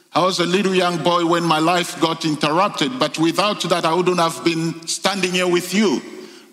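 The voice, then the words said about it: French-influenced accent. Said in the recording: “You would pick up from accent that it's got some French words in it.”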